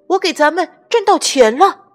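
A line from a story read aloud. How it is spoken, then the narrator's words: Shouted. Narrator (Chinese): 他喊道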